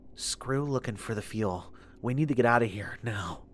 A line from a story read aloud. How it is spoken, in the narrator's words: She leaned close to my ear and whispered